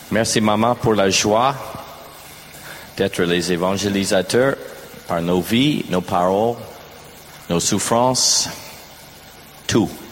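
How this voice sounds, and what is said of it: French with an American accent. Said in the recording (French): “se moquer de mon accent... Un bon accent américain”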